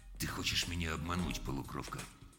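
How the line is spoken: Very quiet. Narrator (Russian): сказал очень тихо

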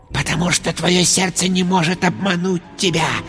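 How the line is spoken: Whispered. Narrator (Russian): прошептал Шай

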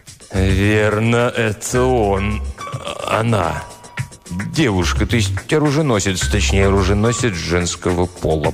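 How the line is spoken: Mumbled. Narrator (Russian): промямлил Тристовер

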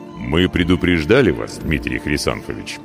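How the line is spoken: Deep quiet rumble. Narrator (Russian): густо и тихо прогудел смуглый

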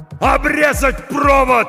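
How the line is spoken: Shouted. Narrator (Russian): закричал Хой

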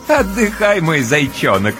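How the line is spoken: Playful chuckle. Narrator (Russian): с игривым хохотком разрешает Ночка

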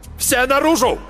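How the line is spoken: Barked. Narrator (Russian): рявкнул Марк Йоган

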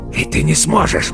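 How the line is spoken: Hoarse rasp. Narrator (Russian): прохрипел он

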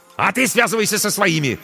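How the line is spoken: Barked. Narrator (Russian): рявкнул ей Корнейчук

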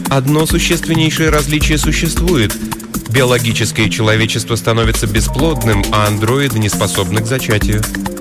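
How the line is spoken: Indifferent tone. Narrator (Russian): сказала Элисон безразличным тоном

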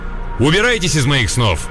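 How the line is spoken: Stern shout. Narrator (Russian): прикрикнуть строгим голосом

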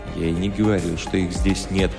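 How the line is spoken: Grumbling. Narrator (Russian): проворчал Барьер

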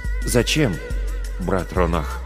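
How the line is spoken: Timid question. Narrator (Russian): робко спросил Орах

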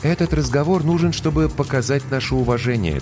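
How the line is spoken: Calm reply. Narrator (Russian): также спокойно отозвалась капитан

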